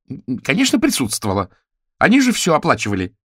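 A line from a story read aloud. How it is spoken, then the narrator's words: Barked. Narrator (Russian): рявкнула Эдит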